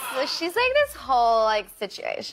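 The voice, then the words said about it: Valley Girl accent. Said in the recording (Dutch): “my American accent that you heard on Terminator kind of changed a little bit into Callie from the Valley ... Wow, that's actually very good.”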